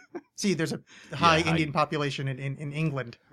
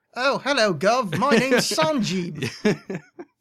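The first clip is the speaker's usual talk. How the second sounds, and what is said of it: Bad put-on English accent. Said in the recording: “I did a bad English accent”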